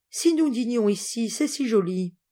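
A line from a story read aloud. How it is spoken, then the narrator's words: Pleading. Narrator (French): dit-elle d'un air suppliant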